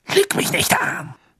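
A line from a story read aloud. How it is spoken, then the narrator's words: Hissed. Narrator (German): zischte Snape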